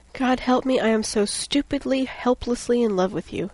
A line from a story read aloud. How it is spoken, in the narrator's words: he groaned softly